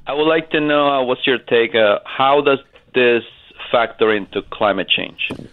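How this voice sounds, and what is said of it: Speaks with a noticeable accent. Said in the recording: “with your accent, the way you say ice sheet is my favorite phrase in the world now”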